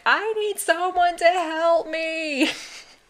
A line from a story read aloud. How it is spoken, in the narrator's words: she was just started screaming